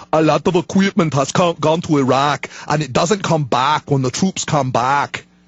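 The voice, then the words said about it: Imitates another person's voice. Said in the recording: “bad Schwarzenegger impersonation”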